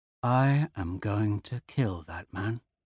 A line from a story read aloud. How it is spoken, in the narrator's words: Screw says quietly